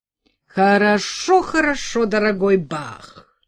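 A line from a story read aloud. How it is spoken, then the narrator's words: Impatient exclamation. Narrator (Russian): нетерпеливо воскликнул король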